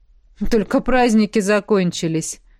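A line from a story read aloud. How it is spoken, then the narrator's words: Snort. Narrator (Russian): хмыкнул Корсак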